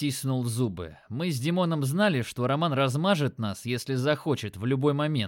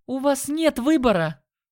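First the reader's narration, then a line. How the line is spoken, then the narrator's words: Sharp shout. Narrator (Russian): Она прикрикнула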